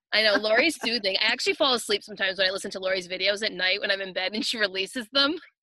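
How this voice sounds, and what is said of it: Rhode Island accent. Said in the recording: “I love your accent ... isn't ... accent amazing? ... It's a little, it's a little Rhode Island Cranstonian accent.”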